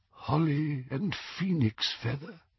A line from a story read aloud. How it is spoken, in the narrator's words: said Ollivander in a tremulous voice